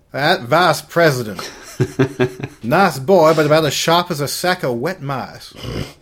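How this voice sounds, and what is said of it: Southern cartoon rooster voice. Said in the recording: “Foghorn Leghorn ... You're from the South ... That's a probably very good impression”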